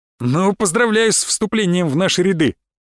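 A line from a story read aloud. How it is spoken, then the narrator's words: Guard chuckling. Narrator (Russian): хохотнул стражник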